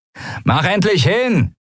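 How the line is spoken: Annoyed call. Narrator (German): rief der Mensch mit den Argnenarben genervt

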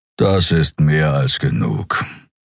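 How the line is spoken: Growled. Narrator (German): knurrte er

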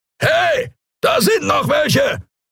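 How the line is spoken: Roared. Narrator (German): brüllte eine Skria-Stimme

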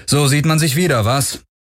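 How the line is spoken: Cool call. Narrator (German): rief Galen ohne große Herzlichkeit

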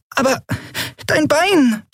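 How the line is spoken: Squeaky. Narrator (German): piepste Nelen

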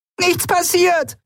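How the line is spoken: Shouted. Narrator (German): schrie

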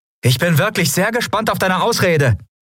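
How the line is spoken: Calling out. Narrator (German): rief Endriel

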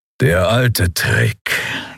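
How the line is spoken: Grudging growl. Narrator (German): knurrte Keru mit widerwilliger Anerkennung

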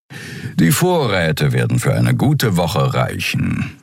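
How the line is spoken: Purring. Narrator (German): schnurrte Suran

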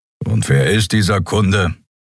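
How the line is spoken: Grumbled. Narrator (German): brummte Kero

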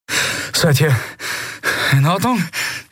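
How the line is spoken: Breathless gasping. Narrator (German): keuchte Kai

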